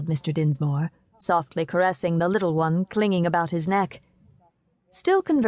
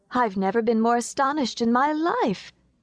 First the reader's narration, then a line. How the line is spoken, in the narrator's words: cried Adelaide